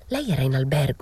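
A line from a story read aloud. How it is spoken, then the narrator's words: Whispered. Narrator (Italian): bisbigliò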